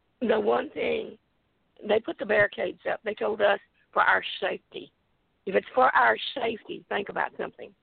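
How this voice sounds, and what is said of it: Hoarse, nearly lost voice. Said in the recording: “my voice is about gone from a lung infection”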